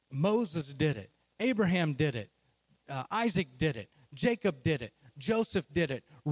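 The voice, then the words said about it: Oklahoma accent. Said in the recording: “I'm from Oklahoma, as you can hear the accent.”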